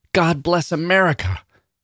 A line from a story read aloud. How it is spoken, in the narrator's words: hollered